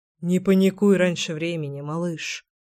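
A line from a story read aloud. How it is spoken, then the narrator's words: Muttered. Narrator (Russian): пробормотал Гром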